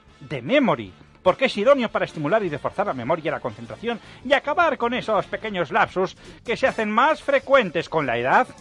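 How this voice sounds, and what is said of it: Advertising announcer voice. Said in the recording (Spanish): “Ya pones voz de locutor publicitario.”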